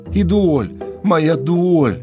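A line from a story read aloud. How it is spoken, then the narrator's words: Anguished cry, loud sobbing woman. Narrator (Russian): с тоской выкрикнула простоволосая женщина и зарыдала в голос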